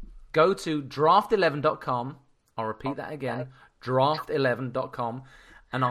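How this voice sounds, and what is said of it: Usual voice. Nothing is said of it.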